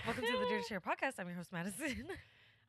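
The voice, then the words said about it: Speaks very fast. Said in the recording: “you just said that really fast.”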